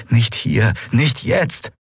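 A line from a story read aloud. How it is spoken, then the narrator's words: Pleading. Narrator (German): flehte sie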